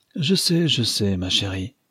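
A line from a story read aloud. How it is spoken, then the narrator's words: Sighed. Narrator (French): soupira Mrs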